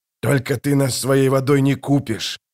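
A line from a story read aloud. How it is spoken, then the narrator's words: Growled. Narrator (Russian): прорычал Джамис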